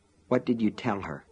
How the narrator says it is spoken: muttered

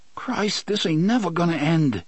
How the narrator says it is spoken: Fat Johnny's mind moaned

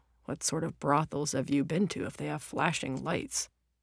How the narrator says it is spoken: He had muttered back

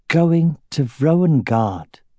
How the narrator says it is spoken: Aragorn said slowly

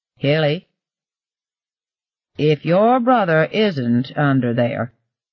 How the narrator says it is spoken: Ev said in a slow voice that was totally unlike his usual one

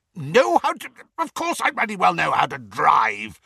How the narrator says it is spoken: spluttered Uncle Vernon

